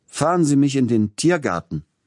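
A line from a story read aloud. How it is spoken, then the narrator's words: Calling out. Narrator (German): rief er dem Kutscher zu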